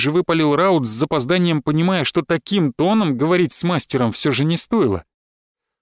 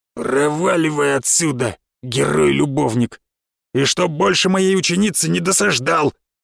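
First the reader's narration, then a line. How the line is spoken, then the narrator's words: Angry growl. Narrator (Russian): прорычал Баджар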